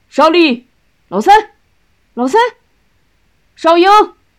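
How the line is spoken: Proud, spirited shout. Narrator (Chinese): 大舅气昂昂的喊

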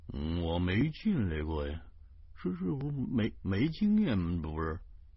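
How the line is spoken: Mumbling. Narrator (Chinese): 徐大光嘟囔的说

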